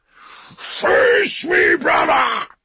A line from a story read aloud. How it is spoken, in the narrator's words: he roared, his mighty voice rising above the thunder of battle